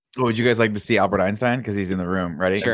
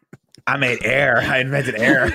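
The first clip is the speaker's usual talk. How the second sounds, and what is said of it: Imitates another person's voice. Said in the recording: “your newfound impression of Albert Einstein”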